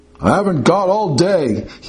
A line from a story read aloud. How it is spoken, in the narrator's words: he bellowed